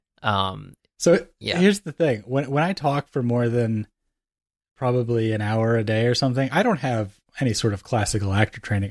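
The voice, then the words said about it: Tired, depleted, slightly hoarse voice. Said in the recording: “You sound extremely tired, and not just like usual ... tired, but like depleted. ... You do sound a little hoarse.”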